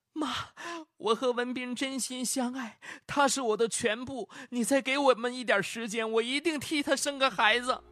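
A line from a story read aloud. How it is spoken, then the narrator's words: Crying, pleading. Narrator (Chinese): 李萍哭着哀求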